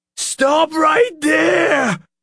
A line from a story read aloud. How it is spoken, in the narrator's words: Officer Mac cried, his voice high and shrill